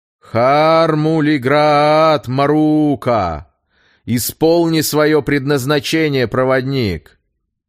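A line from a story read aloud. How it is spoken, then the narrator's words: Loud and clearly audible. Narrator (Russian): громко, чтобы хорошо было слышно, произнес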